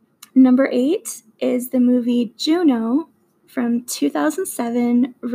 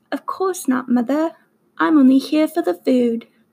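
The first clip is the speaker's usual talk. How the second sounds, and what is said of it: Put-on British accent. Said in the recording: “that is my best British accent”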